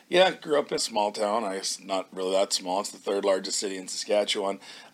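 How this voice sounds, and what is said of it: Canadian English accent. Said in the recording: “the Canadian accent”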